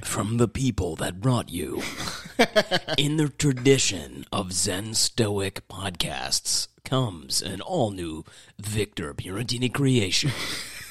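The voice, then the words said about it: Goofy radio announcer voice. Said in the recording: “doing his goofy radio voices”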